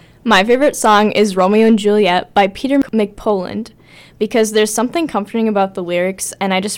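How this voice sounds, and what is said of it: Usual voice. Nothing is said of it.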